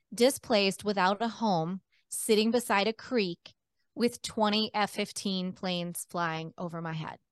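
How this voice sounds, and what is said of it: Emotional, choked-up voice. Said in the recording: “I get a little emotional”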